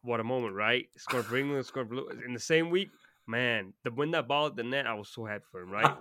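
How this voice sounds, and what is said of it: Put-on general American accent. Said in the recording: “Hearing your American accent is quite funny ... the average British person just does like a country accent, like a southern, you know, whereas yours is like actually like kind of just not southern, like a normal accent ... pretty good.”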